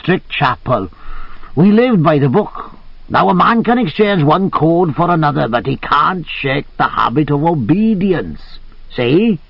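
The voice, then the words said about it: Musical Welsh accent. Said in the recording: “he said in his musical Welsh accent.”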